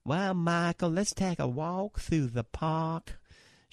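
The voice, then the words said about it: Southern drawl. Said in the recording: “She's got that Southern drawl”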